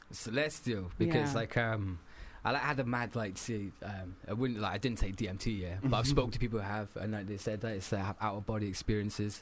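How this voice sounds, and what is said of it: Gruff Corby English accent, Scottish-tinged. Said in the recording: “It's from Corby. ... Corby, all the way from Northampton. ... it's a breed of like Scottish ... we've got that little gruff to our voices”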